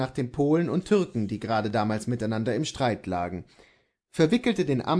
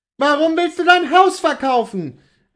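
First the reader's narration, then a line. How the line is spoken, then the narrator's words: Distressed exclamation. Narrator (German): rief sie, indem sie mit einer verstörten Gebärde aufstand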